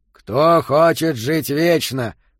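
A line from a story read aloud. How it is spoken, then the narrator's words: Growled, echoing. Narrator (Russian): прорычал Йота, и ровное эхо отразилось от плитки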